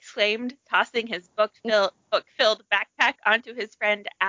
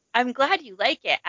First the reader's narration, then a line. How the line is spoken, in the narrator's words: Adam said